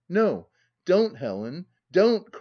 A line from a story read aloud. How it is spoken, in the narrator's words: cried he, in real disquietude